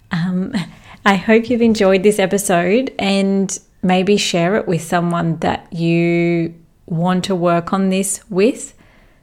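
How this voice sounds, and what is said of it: Tired-sounding voice. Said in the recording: “you can even hear that my voice sounds tired”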